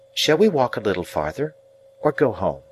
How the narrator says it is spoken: said quite in a whisper

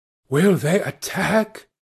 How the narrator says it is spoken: whispered an awed voice

